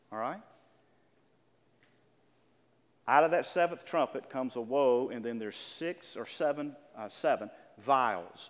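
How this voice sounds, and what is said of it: Southern American accent. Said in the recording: “that's my southern accent.”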